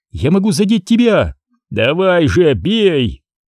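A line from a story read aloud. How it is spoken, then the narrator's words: Pained shout. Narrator (Russian): крикнул ей Крис, корчась от боли, которую ему приносили щупальца Уробороса, обжигавшие словно гигантская медуза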